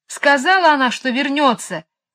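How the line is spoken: Yelling. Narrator (Russian): завопил он

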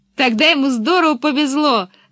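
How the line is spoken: Loud laughter. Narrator (Russian): захохотала Пеппи

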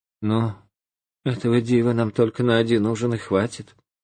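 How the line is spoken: Sigh, then speaking. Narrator (Russian): жена вздохнула и говорит

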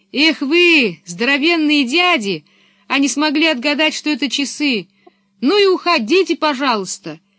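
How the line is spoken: Shout after departing people. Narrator (Russian): крикнула им вслед Пеппи

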